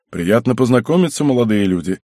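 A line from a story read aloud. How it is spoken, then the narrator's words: Deep bass voice. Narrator (Russian): пробасил он в ответ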